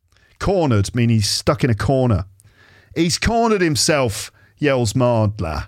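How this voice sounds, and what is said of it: Usual voice. Nothing is said of it.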